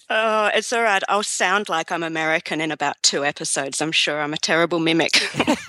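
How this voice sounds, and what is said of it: Australian accent. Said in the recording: “You sound Australian now... We all Americans like that Australian accent.”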